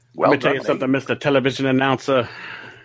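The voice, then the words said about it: Imitates a wrestler's voice. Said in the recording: “your Ernie Ladd impression”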